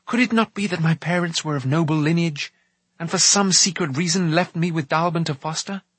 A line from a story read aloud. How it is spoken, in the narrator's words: he went on, his voice quickening hopefully